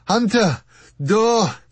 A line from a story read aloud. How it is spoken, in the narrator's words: gasped, breathless